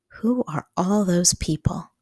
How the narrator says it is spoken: She asked in a quiet voice

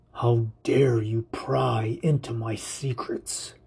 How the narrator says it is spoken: He snarls

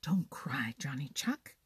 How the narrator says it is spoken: whispered the Merry Little Breeze

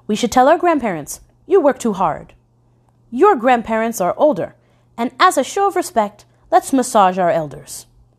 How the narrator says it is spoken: Teacher Chen exclaimed

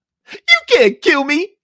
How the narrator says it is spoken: he screamed

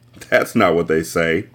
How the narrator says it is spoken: the boy replied with a giggle

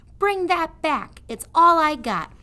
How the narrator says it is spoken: shouted the prisoner

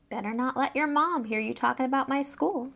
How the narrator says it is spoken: said Harry coolly

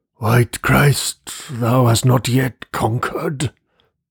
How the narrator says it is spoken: he muttered deliriously

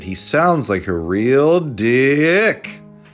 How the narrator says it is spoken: Skinny taunted

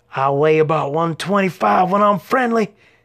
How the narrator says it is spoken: he shouted

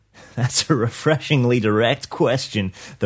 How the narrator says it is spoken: the rainmaker chuckled

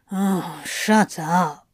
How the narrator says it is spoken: Crowley growled

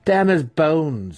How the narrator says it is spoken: Massage spat

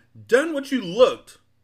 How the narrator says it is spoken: angrily shouted one of the salesmen

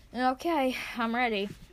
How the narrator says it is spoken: say shakily

